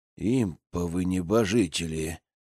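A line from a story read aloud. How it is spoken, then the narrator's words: Whisper. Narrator (Russian): прошептал я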